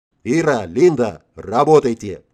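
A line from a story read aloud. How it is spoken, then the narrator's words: Growling at girls. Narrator (Russian): рычать на девочек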